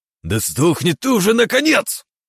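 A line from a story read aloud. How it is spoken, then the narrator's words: Growl. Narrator (Russian): прорычал Синицын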